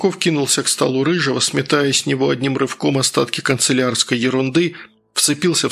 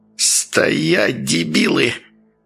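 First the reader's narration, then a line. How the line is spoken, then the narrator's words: Hissing. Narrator (Russian): прошипел Васюков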